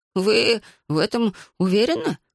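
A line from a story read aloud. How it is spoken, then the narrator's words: Moaning. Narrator (Russian): простонал он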